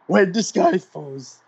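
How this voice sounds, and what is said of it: Poor imitation of another person's singing voice. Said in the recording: “I can't do his voice. This is a terrible impression of Randy Newman”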